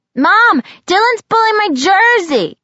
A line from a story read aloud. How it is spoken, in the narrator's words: Grady shouted from the living room